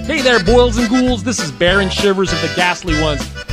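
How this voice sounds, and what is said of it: Groovy announcer voice. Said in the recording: “how do you like my groovy announcer voice?”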